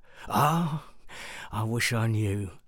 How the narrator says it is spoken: sighed Mehmet

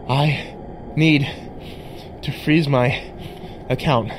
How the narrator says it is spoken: I breathed

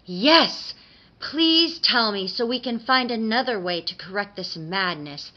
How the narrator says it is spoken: the Tooth Fairy cried

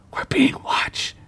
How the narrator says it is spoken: she whispered

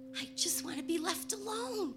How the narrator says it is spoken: I whispered

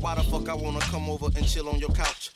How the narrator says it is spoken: I laugh cause it seems she had me all figured out

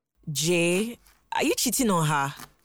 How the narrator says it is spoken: He sighed and replied defeatedly

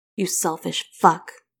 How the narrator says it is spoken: growls

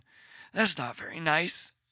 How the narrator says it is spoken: Parker muttered

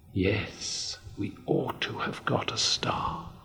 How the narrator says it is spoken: whispered Moomin Mama

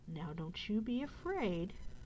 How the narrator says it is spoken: he added kindly

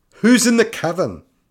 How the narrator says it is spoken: blurted out brashly, trying to mask her false bravado

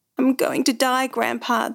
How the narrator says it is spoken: the boy moaned

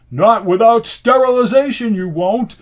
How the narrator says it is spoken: shouted

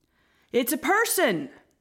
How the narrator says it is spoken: one of the men shouted

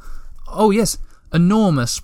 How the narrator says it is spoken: Moomintroll continued nervously

